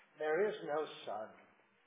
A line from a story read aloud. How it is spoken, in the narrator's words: Slowly and gravely, the witch repeated